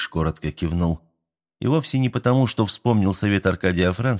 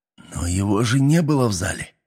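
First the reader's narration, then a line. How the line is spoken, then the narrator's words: Displeased hiss. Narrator (Russian): недовольно прошипел я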